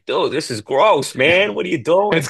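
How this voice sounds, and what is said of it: Thick Boston accent imitation. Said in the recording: “The guy has a very thick Boston accent, which made the video funny.”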